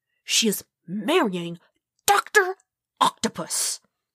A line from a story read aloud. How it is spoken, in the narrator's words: Peter hissed back